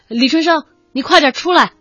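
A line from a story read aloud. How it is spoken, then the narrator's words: Worried shout. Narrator (Chinese): 刘老师 有点担心，冲着水面喊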